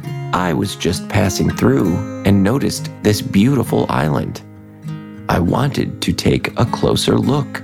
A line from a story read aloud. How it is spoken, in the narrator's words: Claude replied